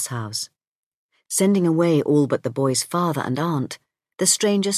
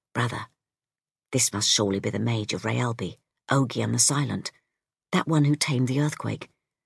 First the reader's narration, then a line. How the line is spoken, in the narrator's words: The witch whispered